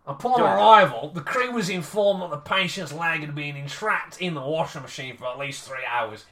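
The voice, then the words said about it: Put-on Australian accent. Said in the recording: “you got to go Aussie ... you've got to go Aussie on this one”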